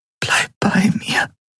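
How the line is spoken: Whispered. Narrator (German): flüsterte sie

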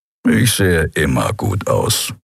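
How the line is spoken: Grumbling. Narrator (German): brummte Keru

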